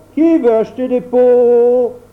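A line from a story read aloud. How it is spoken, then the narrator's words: Shouting again. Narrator (French): criait de nouveau Grand Claus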